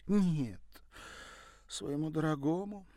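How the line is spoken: Sighing. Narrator (Russian): вздохнула Дуду

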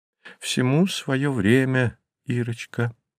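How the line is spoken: Mother speaking plainly. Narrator (Russian): говорила мама

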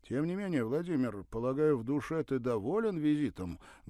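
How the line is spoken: Loud question. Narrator (Russian): громко спросил приятель

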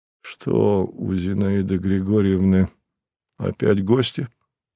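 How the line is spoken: Weary question. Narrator (Russian): устало спросил он у Дворецкого

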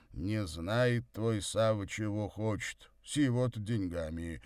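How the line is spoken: Conciliatory mumble. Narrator (Russian): примирительно пробурчал Горький

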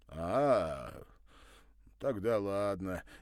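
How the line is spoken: Relaxed deep bass voice. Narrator (Russian): немного расслабившись, пробасил Кузя

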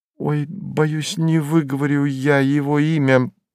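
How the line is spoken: Embarrassed. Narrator (Russian): покраснела служанка

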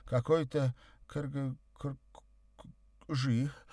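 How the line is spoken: Embarrassed babbling. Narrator (Russian): совсем смутилась она и пролепетала

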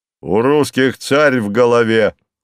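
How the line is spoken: Loud. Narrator (Russian): громко сказал казак

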